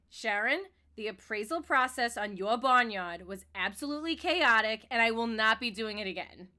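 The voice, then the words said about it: Put-on Long Island accent. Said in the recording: “Long Island accent”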